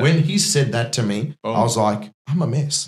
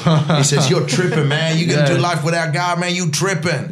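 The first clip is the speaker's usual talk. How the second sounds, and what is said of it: Put-on American accent. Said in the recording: “I'm just trying to put on an accent... that's a good American accent”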